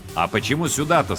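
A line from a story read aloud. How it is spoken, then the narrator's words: Plain. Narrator (Russian): спросил Алькад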